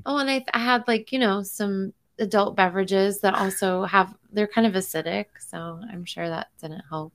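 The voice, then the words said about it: Hoarse voice. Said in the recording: “I'm like hoarse. I'm still hoarse from everything. My voice does not like it doesn't hold up anymore.”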